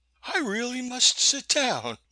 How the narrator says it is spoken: Maud said with a nervous laugh

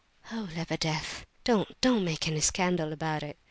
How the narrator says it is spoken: said the prince, much agitated and speaking in a low voice

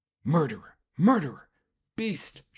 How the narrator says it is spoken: she cried

